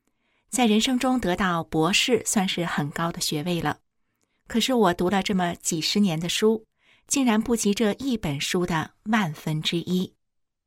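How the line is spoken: Sighing in admiration. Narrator (Chinese): 张美莹感叹地说

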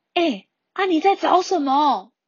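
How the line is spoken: Shouting. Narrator (Chinese): 阿乔阿贝就大喊呐，就跟他说

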